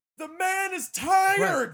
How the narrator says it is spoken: you hear him scream to Joe Rogan

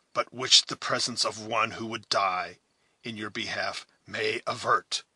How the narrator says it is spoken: said Duncan, speaking hoarsely and as if fretful at her importunity

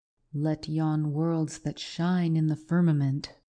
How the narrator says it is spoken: replied he

